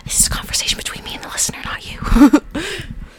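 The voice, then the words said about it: Quiet stage whisper. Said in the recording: “You're talking quieter... because I'm whispering... it's a stage whisper”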